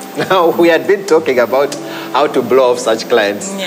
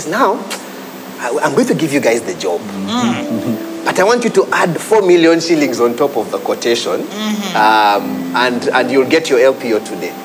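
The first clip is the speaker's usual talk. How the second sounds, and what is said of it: Put-on West African accent. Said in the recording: “with a West African accent.”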